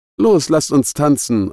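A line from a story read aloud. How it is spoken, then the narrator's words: Exuberant, high-spirited call. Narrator (German): rief Beata, die offenbar in Hochform war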